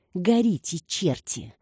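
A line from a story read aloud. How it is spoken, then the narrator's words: Hissed through gritted teeth. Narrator (Russian): сквозь зубы процедила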